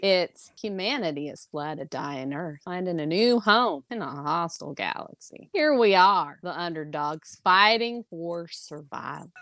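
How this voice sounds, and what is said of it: Slow Southern Texas accent impression. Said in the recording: “he's got a very distinct Texas accent ... Southern South Texas this accent ... the slow it ... This is the closest I can get.”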